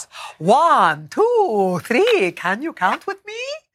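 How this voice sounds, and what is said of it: Count Von Count character impression. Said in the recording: “I do a good impression of Count Von Count from Sesame Street.”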